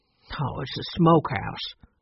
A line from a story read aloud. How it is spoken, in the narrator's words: Tate said, somewhat gruffly